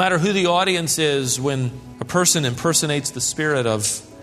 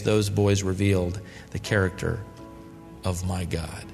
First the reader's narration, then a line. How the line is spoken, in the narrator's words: Shia's father said softly, with tears rolling down his face